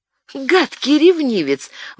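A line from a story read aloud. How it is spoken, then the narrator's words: Exclamation. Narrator (Russian): воскликнула Диана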